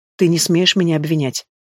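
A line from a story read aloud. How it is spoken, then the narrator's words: Even, level voice. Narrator (Russian): отвечаю я ровным голосом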